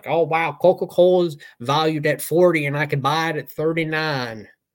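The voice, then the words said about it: Put-on Nebraskan accent. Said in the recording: “That's my Nebraskan accent... that's what I imagine Nebraskans would sound like”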